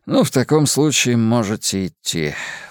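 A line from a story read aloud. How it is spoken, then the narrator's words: Sighing. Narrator (Russian): вздохнул Островский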